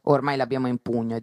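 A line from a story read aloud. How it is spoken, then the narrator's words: Plain. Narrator (Italian): disse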